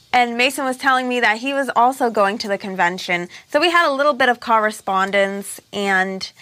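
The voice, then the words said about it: Hard-to-place, possibly mid-Atlantic accent. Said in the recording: “There's an accent I can't place. ... It's like a mid-Atlantic accent?”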